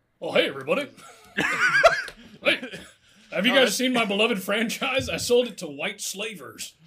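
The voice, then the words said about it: Imitates another person's voice, Beetlejuice-like. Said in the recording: “doing a Beetlejuice impression?”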